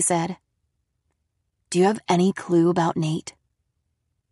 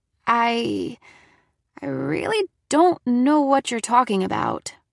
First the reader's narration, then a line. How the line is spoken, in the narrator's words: I stammered